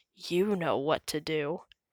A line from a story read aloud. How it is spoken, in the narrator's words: Mayor Humdinger whispered to a boomer